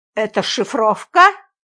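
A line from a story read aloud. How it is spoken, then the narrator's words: Suspicious snort. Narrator (Russian): подозрительно хмыкнул дежурный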